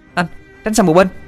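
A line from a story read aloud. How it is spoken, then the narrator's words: Shouting. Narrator (Vietnamese): nghe tiếng hét lên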